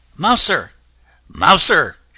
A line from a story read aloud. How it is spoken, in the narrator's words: she cried